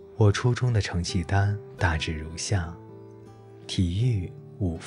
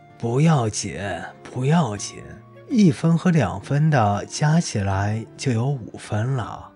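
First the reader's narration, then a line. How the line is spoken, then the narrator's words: Laughing. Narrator (Chinese): 她笑着说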